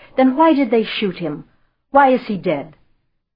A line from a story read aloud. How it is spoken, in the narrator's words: only cried out in the same torment